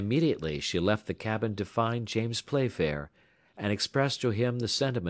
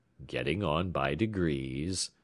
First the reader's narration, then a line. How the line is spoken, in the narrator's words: muttered the American